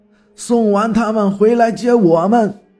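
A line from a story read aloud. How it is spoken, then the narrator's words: Calling out. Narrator (Chinese): 老板还喊着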